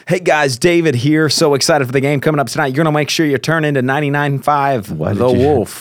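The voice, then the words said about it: Sports radio announcer voice. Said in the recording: “All of a sudden, you'd like the accent change.”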